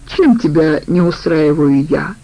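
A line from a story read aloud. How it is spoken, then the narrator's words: Question after laughing. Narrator (Russian): спросила Аида, отсмеявшись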